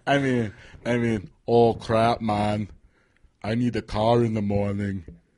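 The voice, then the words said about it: Put-on foreign accent. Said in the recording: “Why does he got to have that accent? ... It's definitely going to be foreign, some language.”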